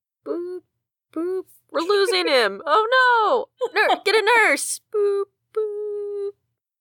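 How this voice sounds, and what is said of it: Imitates hospital monitor beeps and drama. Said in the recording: “my hospital impression”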